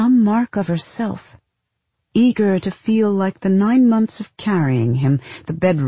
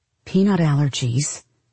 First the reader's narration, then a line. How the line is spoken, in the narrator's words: the other mother muttered